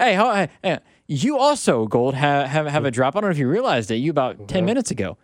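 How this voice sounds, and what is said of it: Usual voice. Nothing is said of it.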